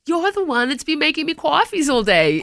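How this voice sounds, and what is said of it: Put-on Bronx accent. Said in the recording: “It doesn't have a Bronx accent, but I put it in there.”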